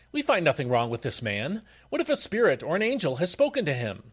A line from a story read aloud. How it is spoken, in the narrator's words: A great clamor arose, and some scribes from the party of the Pharisees got up and contended sharply